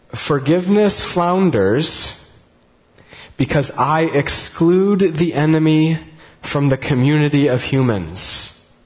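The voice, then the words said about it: Reads very slowly. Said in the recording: “I'm going to read it very slowly ... So I'm going to read it very slowly”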